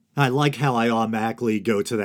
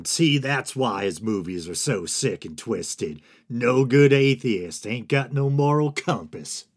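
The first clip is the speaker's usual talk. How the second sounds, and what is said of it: Exaggerated mock Southern accent. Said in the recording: “that half-assed Southern accent whenever I'm trying to lampoon religious zealots”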